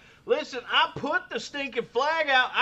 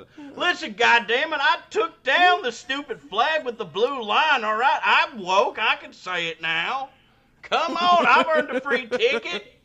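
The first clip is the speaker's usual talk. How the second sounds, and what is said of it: Put-on accent. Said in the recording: “If I'm doing that accent.”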